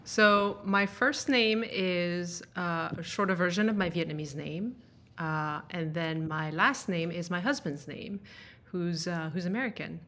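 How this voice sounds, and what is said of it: Mixed French and Danish-influenced English accent. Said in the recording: “I was actually born and raised in France. Which is a little bit of where my accent is from, I guess ... because I learned to speak English when I lived in Denmark”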